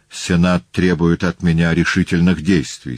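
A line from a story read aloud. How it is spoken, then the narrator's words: Plain. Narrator (Russian): сказал он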